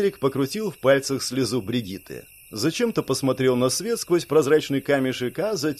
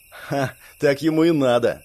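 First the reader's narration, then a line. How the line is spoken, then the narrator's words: Smirking snort. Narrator (Russian): хмыкнул Барт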